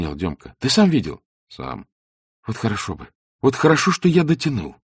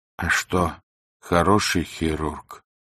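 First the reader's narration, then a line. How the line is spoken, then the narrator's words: Muffled question. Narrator (Russian): глухо спросил новичок с отечными глазами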